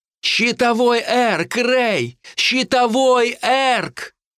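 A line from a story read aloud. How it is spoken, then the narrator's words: Distant shout, torn echo. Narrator (Russian): она кричала мне, но я слышал только рваное эхо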